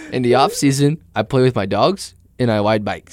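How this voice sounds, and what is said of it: Imitates another person's voice. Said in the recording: “that voice you change”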